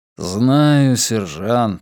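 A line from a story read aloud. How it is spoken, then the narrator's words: Tired. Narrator (Russian): устало проговорил Десоя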